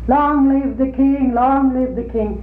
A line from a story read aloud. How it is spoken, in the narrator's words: we children were up on the balcony, and we hollered